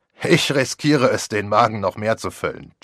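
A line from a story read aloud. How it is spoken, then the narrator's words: Laughing. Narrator (German): Jeb lachte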